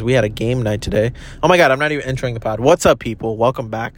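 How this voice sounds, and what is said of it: Hoarse, nearly lost voice. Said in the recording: “my voice is pretty much almost gone from like the amount of laughter”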